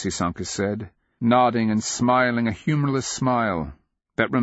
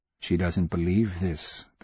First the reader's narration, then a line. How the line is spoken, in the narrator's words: the secret voice whispered